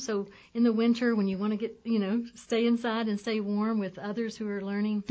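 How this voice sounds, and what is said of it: Slight Georgia Southern accent. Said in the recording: “that Georgia is still coming through ... certain little giveaways”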